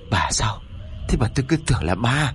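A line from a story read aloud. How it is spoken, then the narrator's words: Shaken, breathless. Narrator (Vietnamese): Ông Chánh tâm thần vẫn bấn loạn, cho nên thở hổn hển một lúc rồi mới cất tiếng nói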